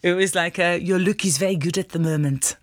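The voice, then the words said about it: Put-on French accent. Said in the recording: “excuse the accent, I'm going to go for it anyway.”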